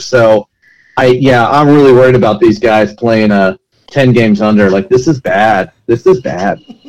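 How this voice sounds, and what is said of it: Sarcastic tone. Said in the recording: “was that being sarcastic?”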